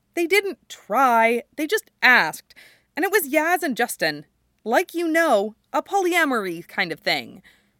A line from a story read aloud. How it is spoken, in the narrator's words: Styles says cheerfully